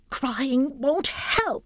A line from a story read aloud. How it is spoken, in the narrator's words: snapped